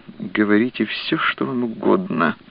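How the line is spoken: Through clenched teeth. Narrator (Russian): процедила она сквозь зубы

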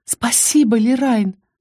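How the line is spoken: Sincere whisper. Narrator (Russian): В шепоте Исты было столько искренности

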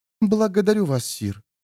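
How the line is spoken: Quiet girl's voice. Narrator (Russian): тихо сказала девушка

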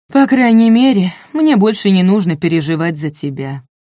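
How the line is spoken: Sigh. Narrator (Russian): вздохнула Нань

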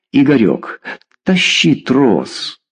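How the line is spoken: Pleading. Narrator (Russian): взмолился Федор

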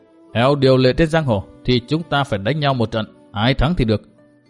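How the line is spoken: Cold voice. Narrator (Vietnamese): Độc trung chi độc lạnh lùng nói

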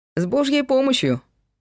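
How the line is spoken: Cheerful reply. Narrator (Russian): весело ответил Павел

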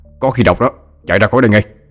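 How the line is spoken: Nearly shouting. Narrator (Vietnamese): Ông Thái nói như quát

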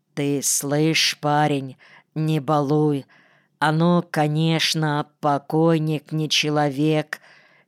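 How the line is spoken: Said quietly. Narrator (Russian): тихо сказал Двойнин

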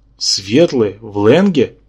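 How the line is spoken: Furious hiss. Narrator (Russian): яростно прошипел Йог-Сотхотх

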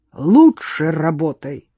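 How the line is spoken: Growled. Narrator (Russian): зарычал Барсинский

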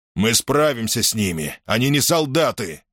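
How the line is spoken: Angry. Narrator (Russian): зло ответил Плистерх

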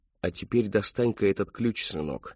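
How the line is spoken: Kind gentle man. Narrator (Russian): ласково произнес славный человек

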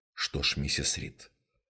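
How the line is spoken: Soft speech. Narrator (Russian): мягко сказал инспектор Праймер

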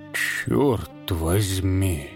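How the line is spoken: Muttering. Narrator (Russian): Пробормотал он

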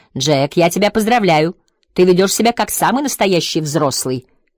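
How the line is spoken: Mother shouting. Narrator (Russian): крикнула ему мама

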